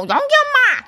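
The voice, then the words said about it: Impression of Young-gi's mom catchphrase. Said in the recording (Korean): “성대모사를 못하는데 ... 오, 잘한다”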